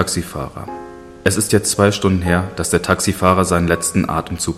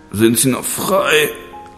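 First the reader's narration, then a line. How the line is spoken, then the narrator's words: Slurred speech. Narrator (German): lallte ich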